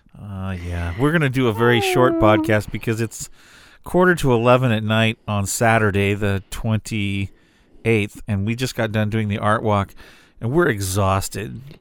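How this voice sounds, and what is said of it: Tired, fading voice. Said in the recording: “My voice is kind of going out.”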